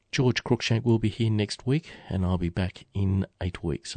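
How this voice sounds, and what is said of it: Slightly croaky voice. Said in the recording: “suffering the tail end of a bout of influenza, so sorry if my voice is a little bit croaky”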